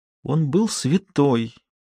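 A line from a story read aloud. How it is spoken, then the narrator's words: Strained tearful voice. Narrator (Russian): выдавила сквозь слезы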